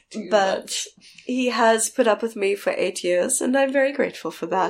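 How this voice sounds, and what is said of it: Congested voice from a cold. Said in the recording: “I have a cold right now”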